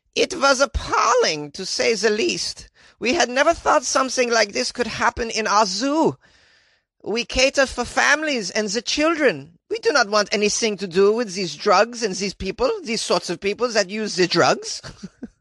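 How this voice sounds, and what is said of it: Put-on Austrian accent. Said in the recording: “That was a pretty good Austrian accent. No? No. ... I'd be able to do a better Austrian accent.”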